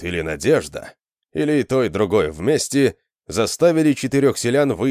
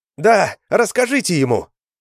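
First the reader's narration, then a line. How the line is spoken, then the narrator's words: Shout. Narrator (Russian): крикнула Шилка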